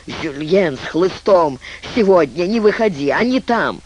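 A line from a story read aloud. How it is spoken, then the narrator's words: Hoarse wheeze. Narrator (Russian): хрипел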